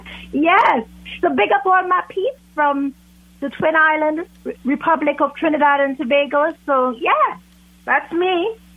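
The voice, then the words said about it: British accent. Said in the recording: “I've got a British accent”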